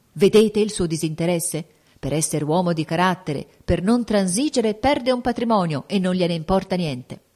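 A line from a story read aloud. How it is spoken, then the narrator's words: Group exclaiming. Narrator (Italian): i fautori del principino esclamarono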